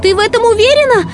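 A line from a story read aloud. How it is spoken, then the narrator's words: Shouted. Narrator (Russian): прокричала Ренни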